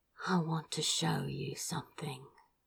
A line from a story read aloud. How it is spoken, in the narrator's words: he said quietly